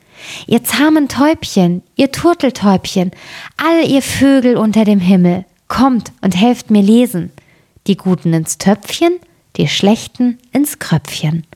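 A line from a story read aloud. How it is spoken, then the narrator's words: Girl calling out. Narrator (German): Das Mädchen rief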